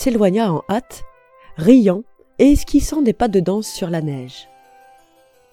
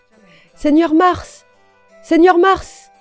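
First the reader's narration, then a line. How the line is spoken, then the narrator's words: Shouted. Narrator (French): lui cria le quatrième personnage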